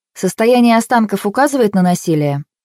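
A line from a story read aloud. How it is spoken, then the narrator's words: Businesslike clarifying question. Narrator (Russian): уточнила самым деловым тоном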